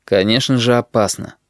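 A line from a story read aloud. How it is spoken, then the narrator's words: Quiet, half-convinced. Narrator (Russian): ответил он негромко, хотя Кнабеншу сейчас сам наполовину верит своим словам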